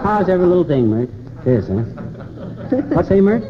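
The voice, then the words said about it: Put-on southern accent. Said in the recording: “Why the southern accent”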